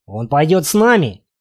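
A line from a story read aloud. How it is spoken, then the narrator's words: Repeated. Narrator (Russian): опять повторил мужчина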